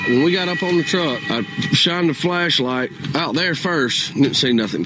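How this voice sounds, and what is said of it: Thick, hard to understand accent. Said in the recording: “a little bit of that was hard to understand ... that's a thick accent”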